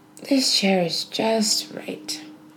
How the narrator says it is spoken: she sighed

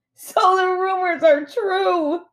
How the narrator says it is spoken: Netta laughed

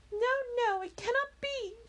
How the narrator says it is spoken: cried

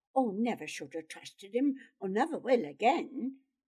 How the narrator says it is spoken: he muttered angrily

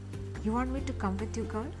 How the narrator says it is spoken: I asked

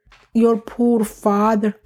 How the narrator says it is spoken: the woman said mournfully

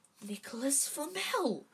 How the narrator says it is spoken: she whispered dramatically

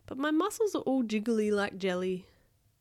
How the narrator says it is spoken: sighed Bob

